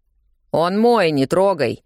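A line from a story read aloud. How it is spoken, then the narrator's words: Barking shout. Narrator (Russian): гаркнул он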